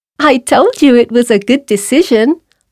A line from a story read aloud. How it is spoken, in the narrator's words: laughed the mouse